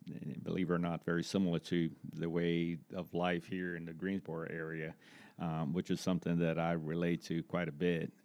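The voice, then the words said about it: Brazilian-accented English. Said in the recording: “your background, for you that can't pick up the accent, is not necessarily Greensboro, North Carolina based... I'm originally from Brazil”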